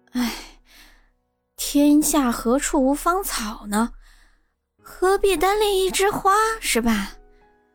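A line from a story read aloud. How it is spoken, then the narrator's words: Sighing. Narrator (Chinese): 叹着气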